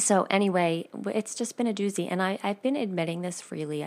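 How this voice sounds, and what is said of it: Slightly off, unwell-sounding voice. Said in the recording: “my voice is a little bit off, and I might be coughing a little bit”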